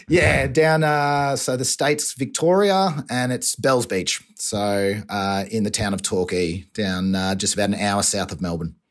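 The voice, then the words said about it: Australian accent. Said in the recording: “You can probably tell by the accent, I'm Australian, from down the southeast.”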